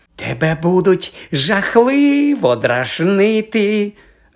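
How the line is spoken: Cheerful. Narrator (Ukrainian): радісно повідомила Мірта

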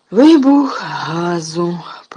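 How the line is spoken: Hoarse rasp. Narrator (Ukrainian): прохрипів Ерні

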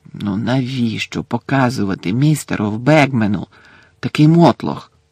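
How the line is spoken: Hissed. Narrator (Ukrainian): засичав Персі

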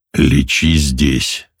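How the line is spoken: Quiet but confident. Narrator (Russian): совсем тихо, но уверенно произнес

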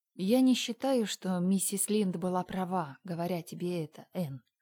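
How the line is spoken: More gently. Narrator (Russian): сказала она более мягко

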